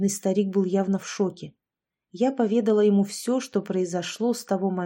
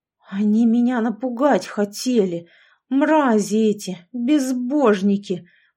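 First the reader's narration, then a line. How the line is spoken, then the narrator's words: Through gritted teeth. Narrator (Russian): Процедил сквозь зубы дядя Леша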